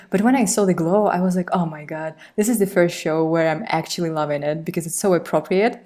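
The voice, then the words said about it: Foreign accent that sounds Spanish. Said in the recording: “hearing yours, it almost sounds Spanish to me”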